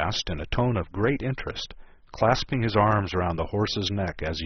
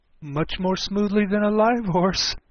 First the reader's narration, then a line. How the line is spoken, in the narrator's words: Alice said, with a little scream of laughter, in spite of all she could do to prevent it